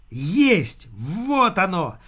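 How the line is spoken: Yelled. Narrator (Russian): завопил он

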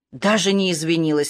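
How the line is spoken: Indignant cry, woman worker. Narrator (Russian): возмущенно вскричала работница Собеса

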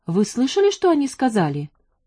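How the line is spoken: Agitated question. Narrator (Russian): взволнованно спросила Джанет

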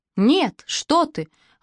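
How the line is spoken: Exclamation. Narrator (Russian): воскликнула я

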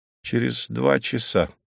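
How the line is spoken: Grumbled. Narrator (Russian): буркнул Немирович

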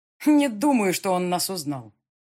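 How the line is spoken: Cheerful. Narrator (Russian): бодро сообщила Рита

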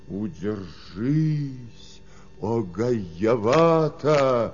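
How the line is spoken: Loud cry. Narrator (Russian): вскричал громко

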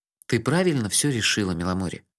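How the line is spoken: Soft. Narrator (Russian): мягко сказал я

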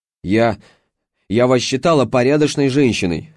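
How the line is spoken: Yelling. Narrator (Russian): заорала она

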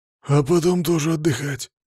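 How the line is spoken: Hoarse. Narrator (Russian): хрипло ответил я

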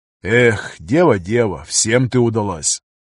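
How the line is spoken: Sighing. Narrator (Russian): Вздохнул пограничник

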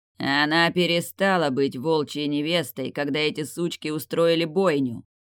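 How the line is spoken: Growling. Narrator (Russian): прорычал светловолосый Альфа

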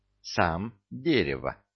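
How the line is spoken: Timid reply. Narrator (Russian): робко ответил Витя

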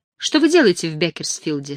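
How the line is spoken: Plain. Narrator (Russian): спросила она

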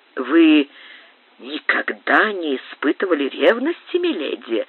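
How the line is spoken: Insinuating, silky question. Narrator (Russian): спросил Рио-Санто вкрадчивым голосом

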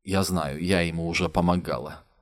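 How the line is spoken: Tired. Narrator (Russian): устало сказала Лиза

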